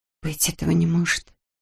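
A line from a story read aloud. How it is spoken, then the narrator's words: Whisper. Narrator (Russian): прошептала она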